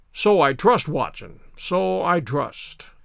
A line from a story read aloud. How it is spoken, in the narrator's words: said Holmes, gravely